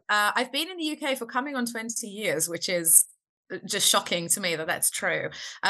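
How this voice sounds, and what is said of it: Non-British foreign accent. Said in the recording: “as people will hear, you're you're not originally from the UK ... I do have a Mat accent, which I um, I'm very proud of”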